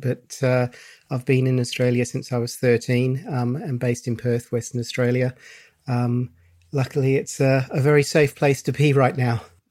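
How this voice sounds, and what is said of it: English accent. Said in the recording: “I'm originally English, if you wonder about the accent”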